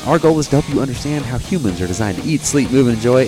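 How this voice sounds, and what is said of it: Smooth radio-host NPR-style voice. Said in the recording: “You have like NPR voice going on.”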